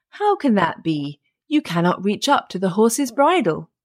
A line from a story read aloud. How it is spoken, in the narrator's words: the woodman laughed and said